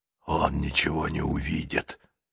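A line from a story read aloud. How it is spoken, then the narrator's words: Whispered. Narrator (Russian): шепнул ей Нестор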